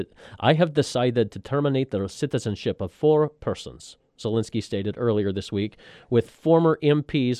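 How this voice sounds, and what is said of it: Put-on Ukrainian accent. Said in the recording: “I could almost do my Ukrainian accent... Did that sound reasonably Eastern European?... That was good.”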